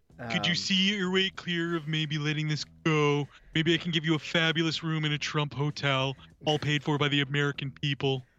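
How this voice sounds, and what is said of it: Mocking imitation of another person's voice. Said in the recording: “the more I sound like him ... I'm literally trying to do an impression like a high school bully would make fun of somebody else and be like, nanny, nanny, boo, boo, when I do his voice.”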